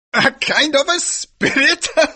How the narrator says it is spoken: laughed the priest

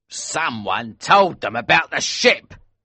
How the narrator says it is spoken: cried Elsevier angrily

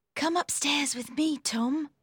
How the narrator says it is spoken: whispered Maggie

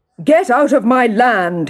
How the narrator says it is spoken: he shouted

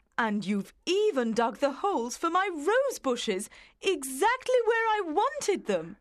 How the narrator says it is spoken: She exclaimed

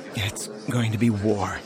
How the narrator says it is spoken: he said, his tone regretful

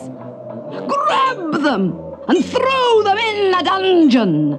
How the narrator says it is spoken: bellowed the chief guard

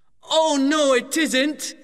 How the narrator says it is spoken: shouted Matt

